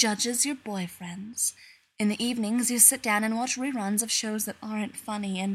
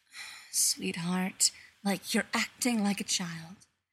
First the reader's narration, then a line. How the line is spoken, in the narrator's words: She tuts at you, and she sighs